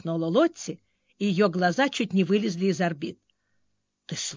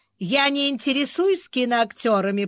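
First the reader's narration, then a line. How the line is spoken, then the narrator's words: Shaken grumble. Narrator (Russian): проворчала потрясенная Мэйв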